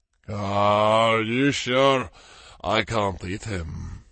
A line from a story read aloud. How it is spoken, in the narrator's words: Kevin growled